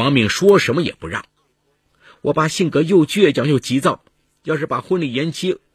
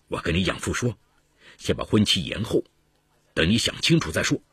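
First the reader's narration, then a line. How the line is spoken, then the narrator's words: Through gritted teeth. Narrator (Chinese): 刘成咬了咬牙说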